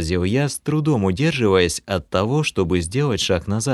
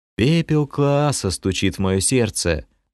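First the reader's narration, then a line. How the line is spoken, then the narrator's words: Mumbling. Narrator (Russian): пробормотал я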